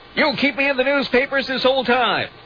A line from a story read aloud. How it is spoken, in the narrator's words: O'Donnell recoiled from Walters' touch and yelled